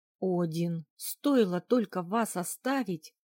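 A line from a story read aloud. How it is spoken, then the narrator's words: Growl. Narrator (Russian): рыкнул Эйнар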